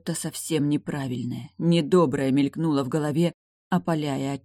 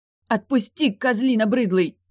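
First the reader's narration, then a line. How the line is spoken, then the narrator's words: Shouting. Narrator (Russian): выкрикнула Ярка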